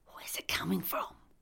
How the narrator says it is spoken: I whispered

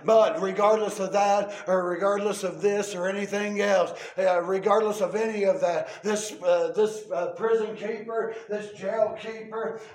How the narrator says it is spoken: Paul cried out unto him, said

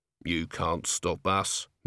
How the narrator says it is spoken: mumbled the man

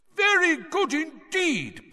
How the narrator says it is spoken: Bagman was shouting

